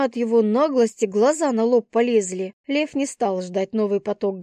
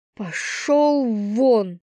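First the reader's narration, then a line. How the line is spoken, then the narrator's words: Hissed, resentful. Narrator (Russian): прошипела я, не желая его видеть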